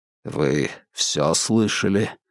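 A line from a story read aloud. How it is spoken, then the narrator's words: Muffled question. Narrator (Russian): глухо спросил Холмс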